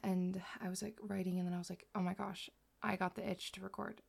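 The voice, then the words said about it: Worn-out voice. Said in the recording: “Oh my goodness, my voice, guys. I just filmed 3 videos, so if my voice is a little”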